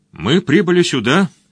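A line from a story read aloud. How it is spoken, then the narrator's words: Calm wizard. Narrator (Russian): продолжал спокойно волшебник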